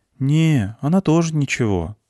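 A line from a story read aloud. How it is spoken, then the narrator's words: Sigh. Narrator (Russian): вздохнул он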